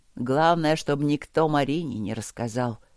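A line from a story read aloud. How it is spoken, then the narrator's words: Nervous mumble. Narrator (Russian): пробормотал он нервно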